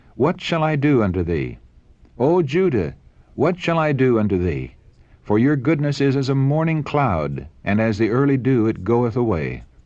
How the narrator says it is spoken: cried

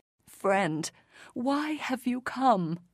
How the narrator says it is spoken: His voice trembling with sorrow

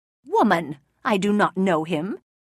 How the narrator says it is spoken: Peter felt compelled to answer, and he said angrily

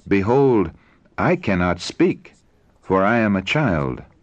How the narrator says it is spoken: he exclaimed

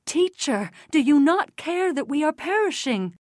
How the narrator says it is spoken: In amazement they exclaimed

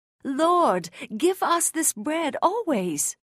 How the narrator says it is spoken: some exclaimed

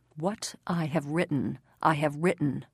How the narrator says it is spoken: Pilate, angry with himself, replied coldly

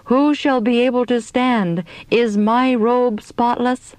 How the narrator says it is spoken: we all cried out

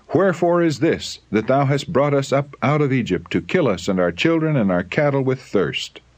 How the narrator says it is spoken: They cried in anger

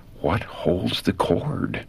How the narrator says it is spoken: in whispered anguish, the words were breathed

